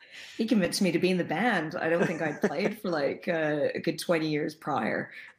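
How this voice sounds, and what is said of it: American international school accent. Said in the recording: “you don't have a, a, a, British accent. I don't, I don't detect anyway ... sort of American international school accent that like I've picked up overseas, mainly in the Middle East”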